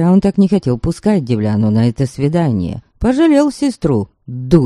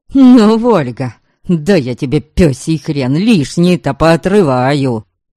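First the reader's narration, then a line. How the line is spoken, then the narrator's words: Furious growl. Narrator (Russian): Верим зарычал от ярости и досады на собственную глупость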